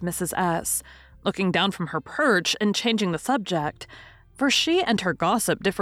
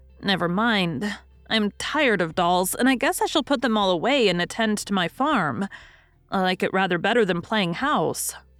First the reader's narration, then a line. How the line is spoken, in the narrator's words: said Mrs